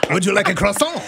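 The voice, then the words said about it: Put-on French accent. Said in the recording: “could you tell the story in a French accent, please?”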